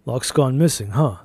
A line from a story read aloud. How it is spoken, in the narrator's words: I said